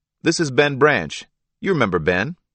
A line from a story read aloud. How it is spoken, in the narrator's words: called out from below